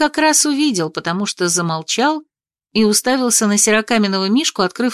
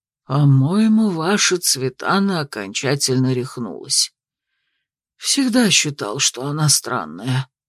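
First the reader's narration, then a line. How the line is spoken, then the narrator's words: Muttered. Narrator (Russian): пробормотал маг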